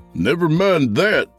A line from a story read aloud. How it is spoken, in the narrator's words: Yancey hollered, still feeling the exhilaration of raw horsepower being unleashed